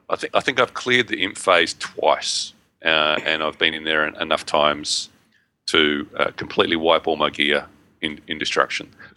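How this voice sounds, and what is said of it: Hoarse, strained voice. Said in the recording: “I need to clear my throat. ... losing my voice.”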